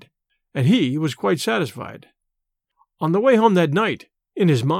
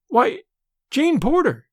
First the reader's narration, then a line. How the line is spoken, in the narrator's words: she exclaimed